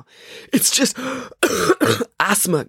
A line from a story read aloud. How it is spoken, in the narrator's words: gasped Maya